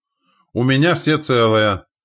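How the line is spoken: Shouted report. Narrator (Russian): крикнул, докладывая Терентий

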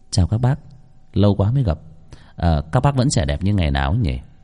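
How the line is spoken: Gentle refined voice. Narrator (Vietnamese): giọng nói nhẹ nhàng nho nhã vang lên

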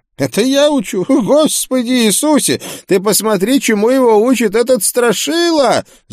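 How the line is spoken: Loud yell. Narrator (Russian): завопил проповедник

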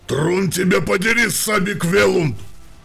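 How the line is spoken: Shouting. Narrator (Russian): выкрикнул Брантон

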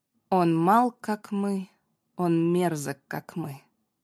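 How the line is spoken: Slow speech. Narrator (Russian): медленно произнесла

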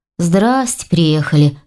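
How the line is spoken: Snorting. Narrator (Russian): хмыкнул Ваня

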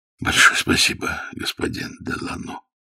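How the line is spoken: Weak dying voice. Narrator (Russian): сказал умирающий слабым голосом

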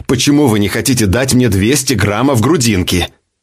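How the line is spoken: Irritated interruption. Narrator (Russian): раздраженно перебил

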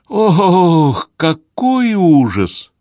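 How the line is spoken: Moan. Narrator (Russian): простонала Мэп

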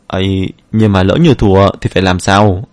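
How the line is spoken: Soft steady voice. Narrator (Vietnamese): Cơ thể yếu điệu kia không run rẩy nữa mà nói khẽ

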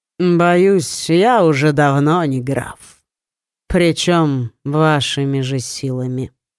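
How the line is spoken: Calm, lazy reply. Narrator (Russian): спокойно и как-то даже лениво ответил Савари

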